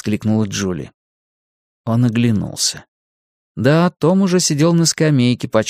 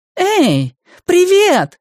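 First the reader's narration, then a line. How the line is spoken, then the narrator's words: Shouted greeting. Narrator (Russian): закричала Джули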